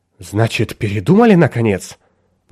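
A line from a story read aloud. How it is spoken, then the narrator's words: Agitated German man. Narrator (Russian): взволнованно проговорил немец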